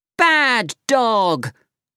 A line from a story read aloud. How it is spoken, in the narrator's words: shouted